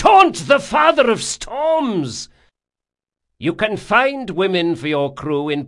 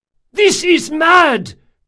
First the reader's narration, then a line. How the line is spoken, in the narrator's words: cried Caldris